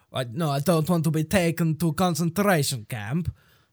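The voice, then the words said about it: Put-on Russian accent. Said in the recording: “that's a Russian accent ... talk like Borat”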